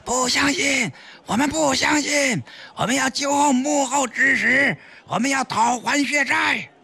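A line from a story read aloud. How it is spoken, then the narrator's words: Group shouting. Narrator (Chinese): 工作人员集体大喊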